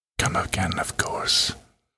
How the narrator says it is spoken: Between the most passionate, arousing kisses Trixie could remember, he whispered

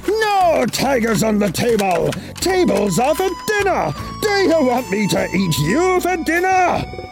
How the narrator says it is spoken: Chen roared

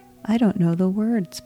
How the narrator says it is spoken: Paul said

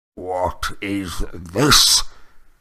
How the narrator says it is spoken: growled Uncle Vernon

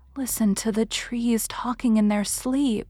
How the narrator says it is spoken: she whispered

